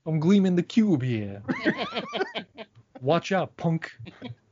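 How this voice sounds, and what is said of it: Put-on Italian accent. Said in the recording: “with that great accent, that Italian accent of his”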